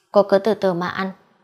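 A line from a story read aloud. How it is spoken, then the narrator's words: Cold parting remark. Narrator (Vietnamese): lạnh lùng bỏ lại một câu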